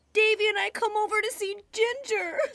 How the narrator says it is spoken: sobbed Dora

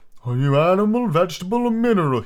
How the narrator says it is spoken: He said, yawning at every other word

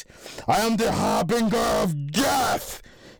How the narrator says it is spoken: He screamed

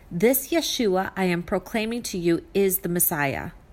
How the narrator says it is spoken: said

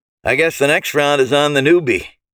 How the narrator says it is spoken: he said with a grim chuckle

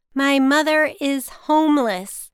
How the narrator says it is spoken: I said slowly and loudly

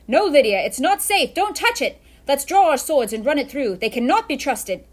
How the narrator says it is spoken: shouted Luke

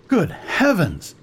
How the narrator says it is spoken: he exclaimed

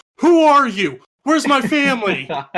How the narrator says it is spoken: I shout

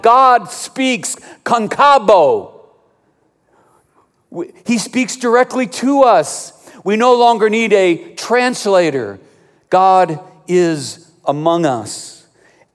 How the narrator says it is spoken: They shouted

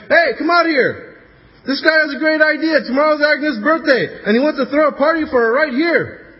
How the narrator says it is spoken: He shouts to his wife

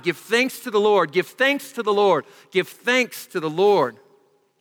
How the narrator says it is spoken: everyone would yell as he went by

